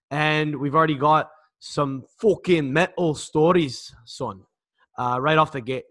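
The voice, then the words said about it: Put-on Scottish accent. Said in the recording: “What's with the Scottish accent right off the bat?”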